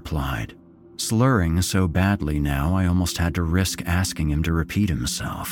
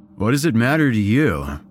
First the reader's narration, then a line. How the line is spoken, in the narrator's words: Fangs slurred